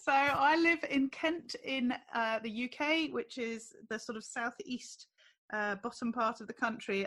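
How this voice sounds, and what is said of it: British English accent. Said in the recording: “no one knows unless they hear your accent”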